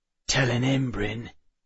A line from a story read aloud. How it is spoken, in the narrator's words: Enoch muttered